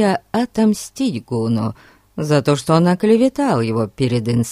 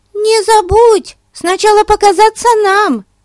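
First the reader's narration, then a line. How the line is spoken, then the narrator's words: Shouting. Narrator (Russian): крикнула Бетси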